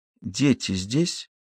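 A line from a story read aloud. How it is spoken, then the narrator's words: Barely audible. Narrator (Russian): еле слышно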